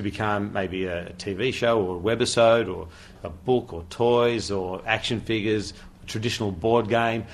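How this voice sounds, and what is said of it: Australian accent. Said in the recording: “you hear the Australian accent ... Don't let the Australian accent fool you.”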